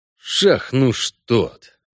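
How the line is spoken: Cursing through gritted teeth. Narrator (Russian): выругался Геральт сквозь зубы

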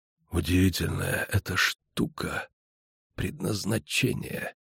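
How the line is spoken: Whisper. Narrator (Russian): услышала она шепот

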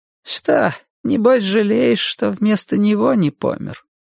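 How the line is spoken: Gentle, affectionate question. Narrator (Russian): ласково спросила бабушка

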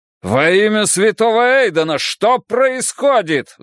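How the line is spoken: Roaring duke. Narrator (Russian): взревел герцог

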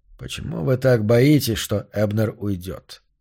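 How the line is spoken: Calm question. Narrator (Russian): спокойно спросил Йорк

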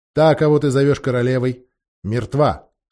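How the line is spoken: Stern. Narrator (Russian): строго произнес принц

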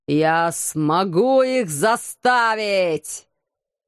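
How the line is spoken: Ghostly roar. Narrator (Russian): Взревел призрак Ломбарди

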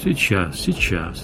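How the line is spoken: Gentle, kind. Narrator (Russian): ласково сказал шеф

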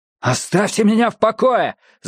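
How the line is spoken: Shouted reply. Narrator (Russian): закричал Мэтью в ответ

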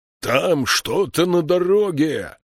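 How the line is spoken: Hoarse roar. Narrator (Russian): хрипло проревел Слудик

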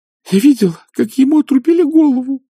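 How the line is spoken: Sobbing. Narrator (Russian): зарыдала Уна

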